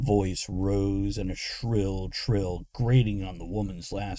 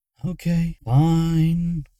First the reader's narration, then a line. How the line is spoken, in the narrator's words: Luna sighed